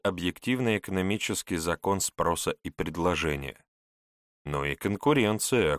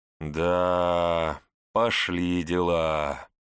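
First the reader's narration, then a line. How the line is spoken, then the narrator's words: Vague drawl. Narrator (Russian): неопределенно протянул Готфрид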